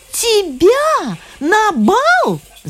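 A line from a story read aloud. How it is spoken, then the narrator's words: Servants shouting. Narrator (Russian): закричали служанки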